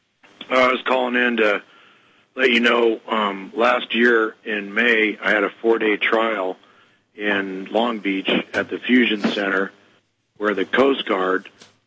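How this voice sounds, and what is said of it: Hoarse, strained voice. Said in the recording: “My voice is a little trashed. I got whatever's going around with the laryngitis or whatever.”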